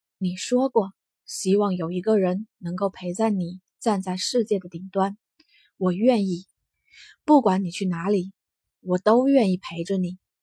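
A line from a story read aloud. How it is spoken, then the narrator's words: Soft whisper. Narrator (Chinese): 耳边轻声道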